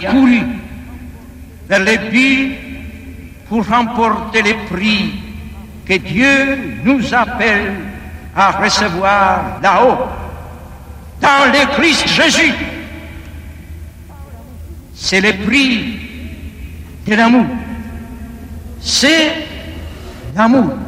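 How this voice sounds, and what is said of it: French with sing-song Polish accent. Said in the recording (French): “cette voix reconnaissable, ce timbre et puis cet accent chantant, roulant les airs à la polonaise”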